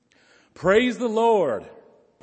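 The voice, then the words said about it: Raised, shouted voice. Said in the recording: “it's meant that it be shouted ... I'm going to do my best to raise my voice.”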